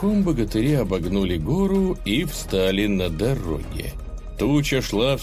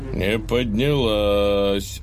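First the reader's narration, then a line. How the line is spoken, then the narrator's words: Puzzled drawl. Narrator (Russian): озадаченно протянул Илья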